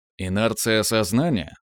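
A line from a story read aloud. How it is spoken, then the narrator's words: Scoffing grunt. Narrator (Russian): хмыкнул Браилов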